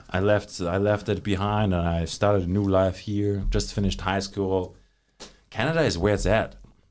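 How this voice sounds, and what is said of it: Speaks with a foreign accent. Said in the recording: “You sound like you got an accent”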